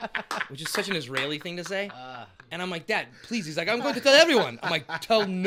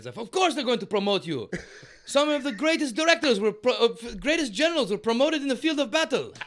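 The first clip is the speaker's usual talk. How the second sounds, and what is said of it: Impersonation of a father's voice. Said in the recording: “that's the great impersonation”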